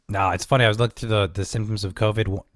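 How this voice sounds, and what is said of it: Stuffy, congested nasal voice. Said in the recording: “I sound a little weird today because I'm really stuffy. I got like fed congestion all weekend ... So if I sound a little different today ... I'm just super stuffy today”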